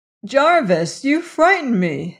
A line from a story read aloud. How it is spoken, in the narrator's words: she cried